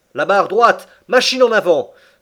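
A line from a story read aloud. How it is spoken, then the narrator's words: Shouted command. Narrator (French): cria le commandant Farragut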